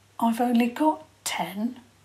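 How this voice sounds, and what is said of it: Small, timid voice. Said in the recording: “in a small voice”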